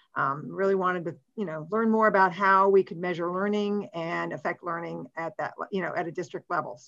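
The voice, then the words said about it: West Virginia accent. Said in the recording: “I came from West Virginia. Oh, Doug, everybody talks about my accent.”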